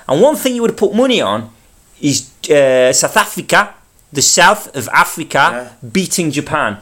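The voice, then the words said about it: Put-on South African accent. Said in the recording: “You can't do the South Africa and then just return to the Mancunian ... my South African accent ... pleased with the South African accent”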